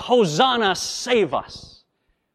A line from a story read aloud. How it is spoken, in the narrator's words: the people of New York City cried out with a cheer